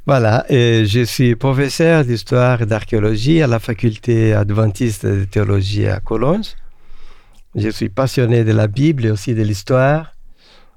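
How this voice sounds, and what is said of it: Brazilian accent speaking French. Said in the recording (French): “je suis d'origine brésilienne. Pour mon accent, vous pouvez le voir.”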